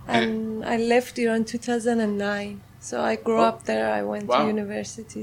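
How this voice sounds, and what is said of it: Farsi (Persian) accent. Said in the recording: “how would you describe your accent? ... Farsi. ... Farsi right. accent.”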